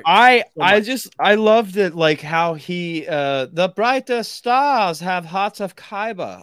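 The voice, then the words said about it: Imitates another person's voice. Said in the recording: “that's my Donnie Yen impersonation. ... That's how he said it. ... It was a little too much Big Trouble Little China for me.”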